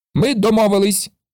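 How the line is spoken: Shout. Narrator (Ukrainian): закричав Карлсон

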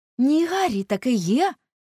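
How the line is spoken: Exclamation. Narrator (Ukrainian): вигукнув Доріан

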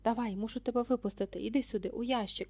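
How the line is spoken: Hoarse whisper. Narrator (Ukrainian): хтось хрипко зашепотів

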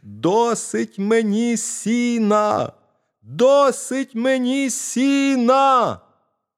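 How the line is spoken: Shouting again. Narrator (Ukrainian): мізинчик закричав знову

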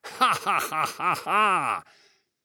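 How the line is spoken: Maniacal laughter. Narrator (Russian): захохотала она, как одержимая

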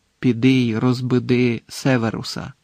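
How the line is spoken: Quiet but clear command. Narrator (Ukrainian): Тихо, але чітко звелів Дамблдор

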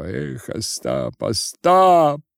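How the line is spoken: Shouting. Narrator (Russian): кричал Тарас

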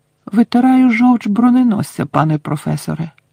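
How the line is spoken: Innocent tone. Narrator (Ukrainian): невинним тоном сказав Гаррі

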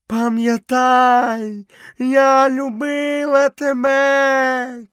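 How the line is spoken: Shout. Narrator (Ukrainian): крикнула пантера

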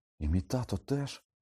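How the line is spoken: Stunned exclamation. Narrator (Ukrainian): приголомшено вигукнув Гаррі

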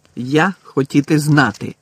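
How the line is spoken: Angry. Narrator (Ukrainian): сердито сказав він

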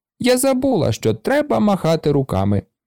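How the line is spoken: Cheerful call. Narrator (Ukrainian): весело гукнула вона

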